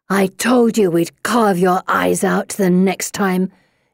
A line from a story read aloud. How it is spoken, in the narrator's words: she growls